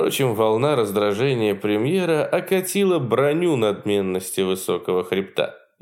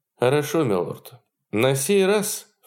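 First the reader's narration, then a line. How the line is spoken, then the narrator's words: Through teeth, after deep sigh. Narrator (Russian): Сверкнув глазами и стиснув зубы, Кромарти откинулся в кресле, глубоко вздохнул и произнес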